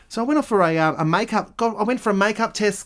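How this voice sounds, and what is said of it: Put-on feminine voice. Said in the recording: “when I do that voice... put it on a feminine voice when I'm talking about makeup”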